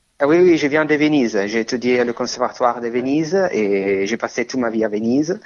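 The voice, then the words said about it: Italian accent speaking French. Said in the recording (French): “Votre accent en témoigne, vous venez d'Italie.”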